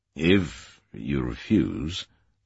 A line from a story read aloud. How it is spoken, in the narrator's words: said Ashton Gwatkin slowly